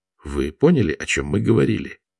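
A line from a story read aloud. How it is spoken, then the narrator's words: Low-voiced question. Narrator (Russian): вполголоса спросил Даниэль Владимира и Вахтанга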